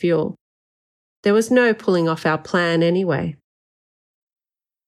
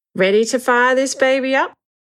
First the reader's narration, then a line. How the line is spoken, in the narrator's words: Danny asked cheerfully